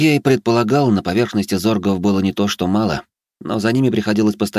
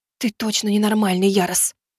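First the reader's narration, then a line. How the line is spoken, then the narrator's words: Whisper. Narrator (Russian): прошептала Элиза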